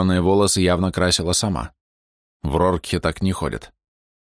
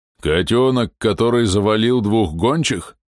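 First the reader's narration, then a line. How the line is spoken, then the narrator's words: Muffled booming voice. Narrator (Russian): прогудел голос из-под шлема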